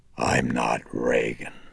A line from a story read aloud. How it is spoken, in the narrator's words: she rumbled, still with that taut and hideous grin